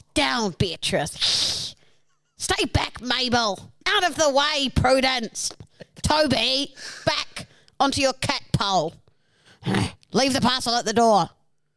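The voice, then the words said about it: Crazy cat lady character voice. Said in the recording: “The generic accent's back, baby. ... you're a crazy cat lady that hates people ... Get into character. Let's see some character work here.”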